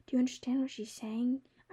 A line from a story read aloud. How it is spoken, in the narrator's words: I whispered to Kiki